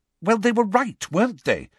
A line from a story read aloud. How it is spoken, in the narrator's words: said Hermione impatiently